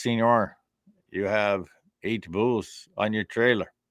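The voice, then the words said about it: Weak put-on Mexican accent. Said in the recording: “My Mexican accent isn't real good”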